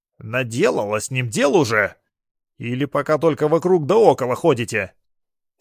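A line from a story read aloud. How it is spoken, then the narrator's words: Angry questioning. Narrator (Russian): Сердито вопрошал Радим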